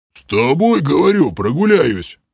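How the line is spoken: Puzzled deep bass. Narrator (Russian): С недоумения пробасил Грим

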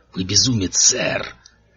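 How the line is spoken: Growling. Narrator (Russian): зарычал

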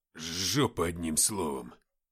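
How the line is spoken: Muttered with cigarette. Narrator (Russian): пробормотал федерал с сигаретой

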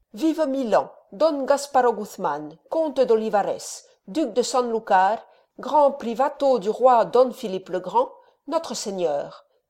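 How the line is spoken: Exclaimed. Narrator (French): s'écria-t-il

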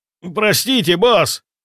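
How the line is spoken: Shouted. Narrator (Russian): крикнул Сергей

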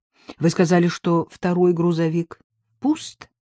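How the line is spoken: Plain. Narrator (Russian): спросил Каширский

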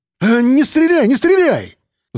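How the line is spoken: Frightened babbling. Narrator (Russian): залепетал Пухлый

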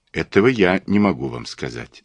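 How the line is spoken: Calm reply. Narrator (Russian): спокойно ответил я

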